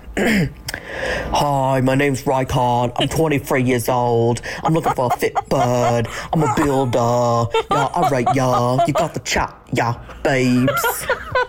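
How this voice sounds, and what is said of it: British reality-show contestant impression. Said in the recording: “I can do a pretty good Love Island UK impression, like one of the contestants”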